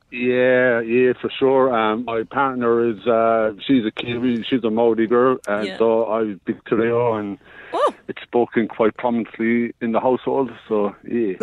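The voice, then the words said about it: Irish accent. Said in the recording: “you've got an interesting accent. What part of Ireland are you from”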